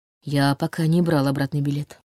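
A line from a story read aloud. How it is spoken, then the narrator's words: Quiet admission. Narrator (Russian): тихо признался он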